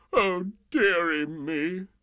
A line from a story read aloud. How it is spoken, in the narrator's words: The King sobbed